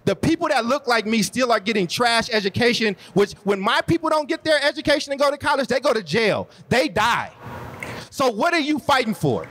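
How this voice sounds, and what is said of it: Impassioned preacher-like delivery. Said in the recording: “you sound like a Baptist preacher right now”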